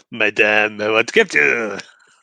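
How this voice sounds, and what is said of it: Exaggerated French accent. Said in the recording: “in like a really French accent”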